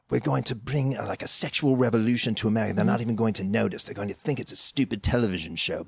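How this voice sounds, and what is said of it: Put-on British accent. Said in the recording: “He was British. That's why I'm doing a British accent.”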